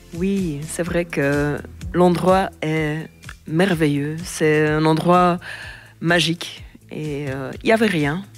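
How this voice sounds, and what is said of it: Slight Flemish accent in French. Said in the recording (French): “ce petit accent ... c'est parce qu'elle est originaire de Flandre”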